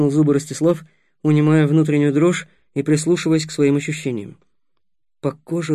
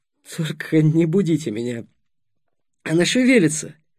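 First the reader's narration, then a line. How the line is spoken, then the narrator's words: Laughing. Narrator (Russian): Сухов засмеялся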